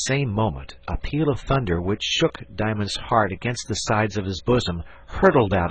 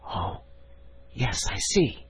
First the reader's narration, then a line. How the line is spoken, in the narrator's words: whispered Diamond